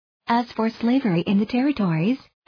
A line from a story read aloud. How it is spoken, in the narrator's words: asked Webster